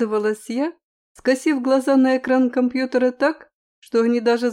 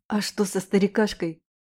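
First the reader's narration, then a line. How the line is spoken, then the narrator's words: Whispered question. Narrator (Russian): спросил он шепотом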